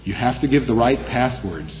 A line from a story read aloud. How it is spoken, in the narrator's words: he replied